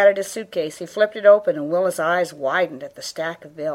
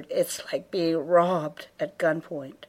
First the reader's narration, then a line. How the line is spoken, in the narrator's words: Leanne whispered